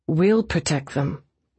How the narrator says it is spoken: Eve said quietly

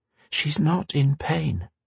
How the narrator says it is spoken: Kyla said gently

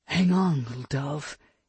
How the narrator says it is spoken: he murmured under his breath

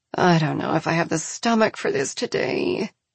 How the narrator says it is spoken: Arsinoe mutters

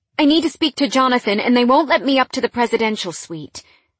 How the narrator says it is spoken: I blurted

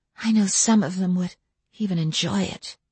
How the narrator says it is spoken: She took a deep breath and whispered almost to herself

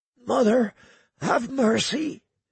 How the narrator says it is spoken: he muttered in a hushed, husky voice beneath the frozen mask

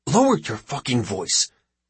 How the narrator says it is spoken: hisses Khandri

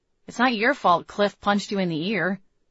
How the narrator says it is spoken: I said

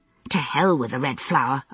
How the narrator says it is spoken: I muttered

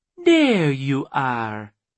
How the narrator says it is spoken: she cooed

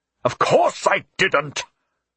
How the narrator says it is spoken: Philip roared

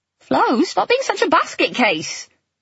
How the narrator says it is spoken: Melanie snapped back

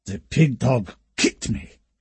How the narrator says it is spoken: he wheezed

